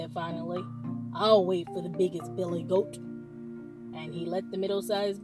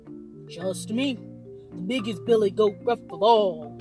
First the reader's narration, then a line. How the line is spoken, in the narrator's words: cried the last billy goat Gruff